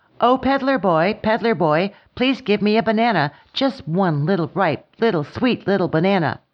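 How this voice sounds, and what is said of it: Slightly louder character voice. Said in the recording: “time in a little louder voice,”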